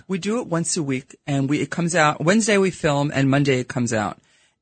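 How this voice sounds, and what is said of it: Brooklyn New York accent. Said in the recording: “my horrible Brooklyn accent that comes out because I'm a New Yorker”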